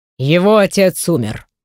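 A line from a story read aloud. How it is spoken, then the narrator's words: Fairly calm. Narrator (Russian): довольно спокойно произносит мой родитель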